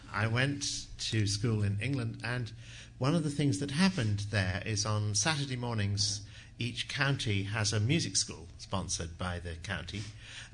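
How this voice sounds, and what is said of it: Non-local accent. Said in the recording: “You can tell by the accent that I'm not a local.”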